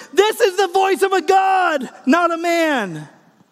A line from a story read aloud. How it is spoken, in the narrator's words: they shouted